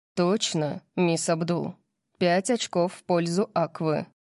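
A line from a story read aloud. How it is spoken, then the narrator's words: Plain. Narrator (Russian): сказал Орион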